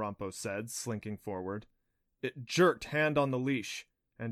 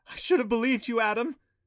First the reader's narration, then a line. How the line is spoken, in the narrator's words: she called out